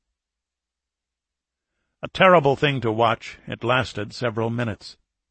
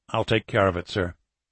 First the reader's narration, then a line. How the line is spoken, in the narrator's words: Garcia said quietly